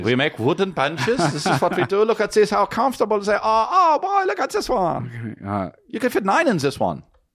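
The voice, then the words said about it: Put-on German accent. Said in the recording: “that sounds German... this is German”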